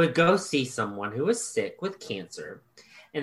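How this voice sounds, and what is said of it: Usual voice. Nothing is said of it.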